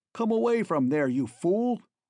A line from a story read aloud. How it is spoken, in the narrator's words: yelled McClellan in his ear